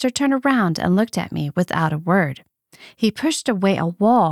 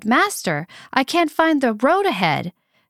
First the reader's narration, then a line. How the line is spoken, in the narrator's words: cried